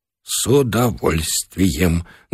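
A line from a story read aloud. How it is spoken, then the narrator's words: Trembling voice. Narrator (Russian): дрогнувшим голосом пообещал Бычков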